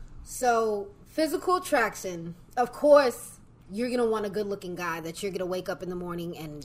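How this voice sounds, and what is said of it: New York accent. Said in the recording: “You from New York? ... I get told that. I sound like ... New York. You do get that New York accent, like, real quick.”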